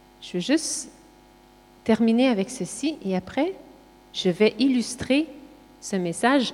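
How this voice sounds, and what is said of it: Quebec French accent. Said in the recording (French): “moi, j'ai un accent québécois”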